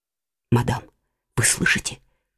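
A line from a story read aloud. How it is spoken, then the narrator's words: Frightened question. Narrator (Russian): испуганно спросила Жиона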